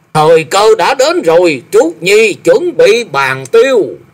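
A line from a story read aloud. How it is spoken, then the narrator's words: Loud shout. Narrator (Vietnamese): Tằng Kiếm quát lớn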